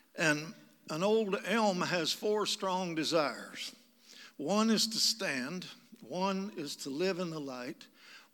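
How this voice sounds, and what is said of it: Kentucky accent. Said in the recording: “I'm from Kentucky. That's where I got this accent. ... To some, it may sound more like an affliction.”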